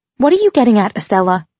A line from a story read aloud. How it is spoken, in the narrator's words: She said irritably